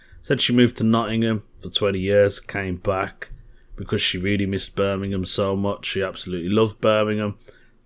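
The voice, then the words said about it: Brummie (Birmingham) accent. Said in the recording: “she likes a Brummie accent. She thinks I'm a proper Brummie.”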